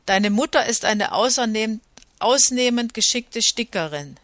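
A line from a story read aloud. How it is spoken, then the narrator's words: Plain. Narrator (German): sagte Anaketa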